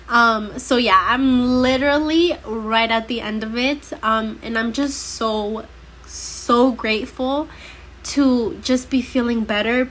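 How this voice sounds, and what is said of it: Stuffy, congested voice. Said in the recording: “I sound a little stuffy or I might sound a little bit different, it is because I'm coming over a flu”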